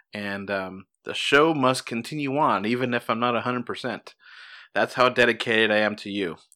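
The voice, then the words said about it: Sick, slightly off voice. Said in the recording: “my voice sounds a little off. I am sick like a dog”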